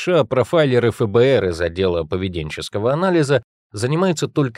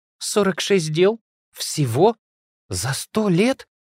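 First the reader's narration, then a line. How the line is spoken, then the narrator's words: Surprised. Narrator (Russian): удивилась Вера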